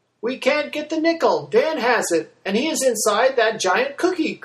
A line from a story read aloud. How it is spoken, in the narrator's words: cried out Grace